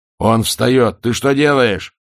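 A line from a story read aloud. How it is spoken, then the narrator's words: Yell. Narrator (Russian): завопил Ваймс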